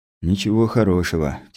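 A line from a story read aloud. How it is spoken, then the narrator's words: Heavy sigh. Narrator (Russian): тяжело вздохнул я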